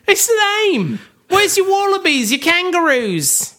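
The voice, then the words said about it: Exaggerated mock Australian accent. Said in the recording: “You sound like Ricky Gervais doing an Australian accent. ... I sound like Ricky Gervais doing Gordon Ramsay impersonating Crocodile Dundee.”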